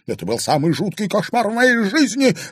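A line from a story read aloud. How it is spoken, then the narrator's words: Shrill squeal. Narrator (Russian): взвизгнула Марьяна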